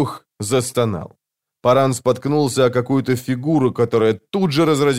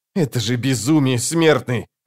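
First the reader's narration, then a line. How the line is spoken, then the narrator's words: Snapping. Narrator (Russian): огрызнулся брат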